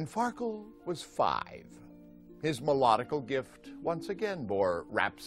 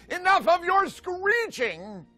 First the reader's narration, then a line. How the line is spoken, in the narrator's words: as he shouted